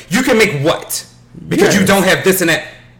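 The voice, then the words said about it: Imitates another person's voice. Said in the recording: “that was not a good impersonation of what I did”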